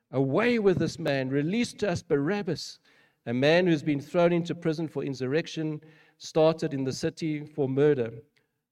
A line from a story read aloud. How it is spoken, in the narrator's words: they all cried out together